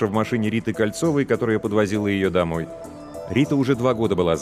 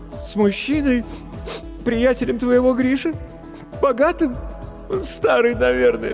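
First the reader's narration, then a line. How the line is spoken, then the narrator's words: Sobbing. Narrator (Russian): всхлипнула Маша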